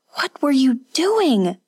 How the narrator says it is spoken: Kazuko cried

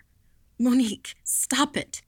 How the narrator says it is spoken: she gasped

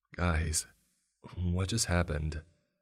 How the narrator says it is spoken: Josh said in a very nervous voice

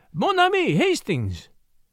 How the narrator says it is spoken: he cried

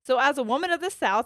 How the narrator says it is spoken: I shout

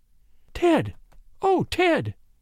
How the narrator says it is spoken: she gasped

